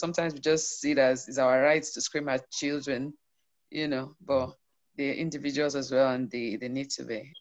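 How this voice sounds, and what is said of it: Hoarse, strained rough voice. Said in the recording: “I hope I don't sound like a drunkard with that bus rider, like Agbero. ... annoying me. ... I've been screaming all day”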